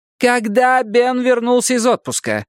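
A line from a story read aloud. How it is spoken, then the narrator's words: Near-yelling into phone. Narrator (Russian): почти заорала в трубку Бакстер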